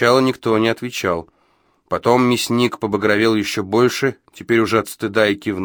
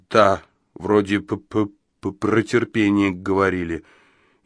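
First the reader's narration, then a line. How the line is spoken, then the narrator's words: Barely audible, stammering. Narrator (Russian): еле слышно, запинаясь, выдавил он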